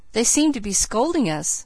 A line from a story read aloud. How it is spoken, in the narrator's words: I said, laughing